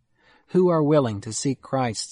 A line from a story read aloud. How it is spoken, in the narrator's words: said I